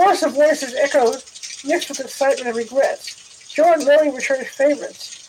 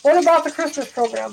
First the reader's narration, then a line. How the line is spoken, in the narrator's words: Barbara Newton asked